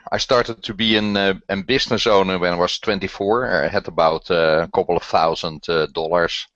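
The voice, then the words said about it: Dutch accent. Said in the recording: “I'm from the Netherlands, so there you have my terrible accent”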